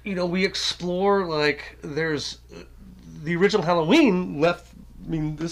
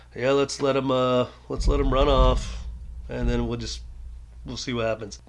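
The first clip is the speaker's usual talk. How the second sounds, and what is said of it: Imitates another person's voice. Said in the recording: “my imitation of Carpenter”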